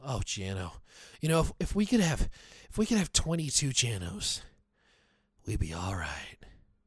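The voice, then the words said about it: Brock Olivo impression. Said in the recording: “My Brock Olivo impression.”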